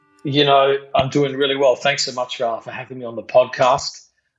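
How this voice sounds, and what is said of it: South Australian accent. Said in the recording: “he is actually from Australia, if you can't already tell by the accent. ... He is from South Australia”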